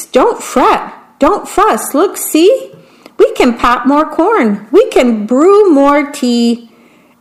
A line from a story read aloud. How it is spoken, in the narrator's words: Mouse squeaks